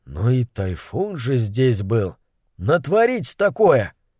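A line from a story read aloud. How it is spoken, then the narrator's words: Muttering sailor. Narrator (Russian): один из матросов пробормотал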